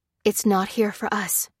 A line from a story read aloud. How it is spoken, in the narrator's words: whispered Lucy, sensing the man's fear